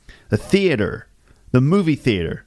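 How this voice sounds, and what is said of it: Put-on American accent. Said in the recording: “sorry about my American accent, which must sound a bit ridiculous to you”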